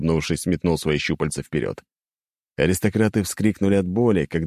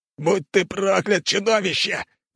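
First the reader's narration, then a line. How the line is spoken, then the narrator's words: Yelling. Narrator (Russian): завопил второй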